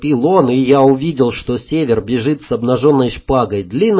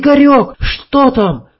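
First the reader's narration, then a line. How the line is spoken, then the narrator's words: Shouting. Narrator (Russian): Валька, его сестра, крикнула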